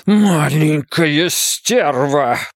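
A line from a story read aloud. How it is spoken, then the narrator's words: Hissed. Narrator (Russian): прошипел Ван Эк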